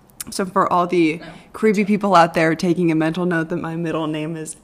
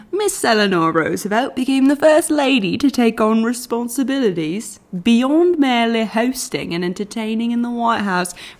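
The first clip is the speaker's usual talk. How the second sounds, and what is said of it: Put-on British accent. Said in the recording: “I'm going to do this in a British accent.”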